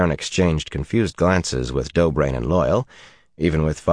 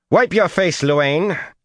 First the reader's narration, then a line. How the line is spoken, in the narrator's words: Suelin snapped